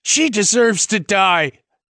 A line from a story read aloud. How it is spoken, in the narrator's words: Hannah cried